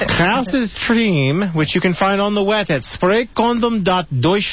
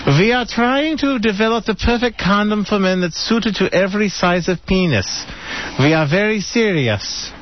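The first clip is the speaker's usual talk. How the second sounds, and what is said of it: Put-on German accent. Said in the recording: “I'm speaking in a German accent.”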